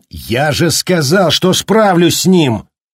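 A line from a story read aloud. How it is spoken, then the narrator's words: Sudden furious yell. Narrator (Russian): заорал вдруг Джек, вскипая от злости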